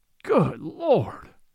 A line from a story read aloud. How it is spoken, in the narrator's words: says he with a groan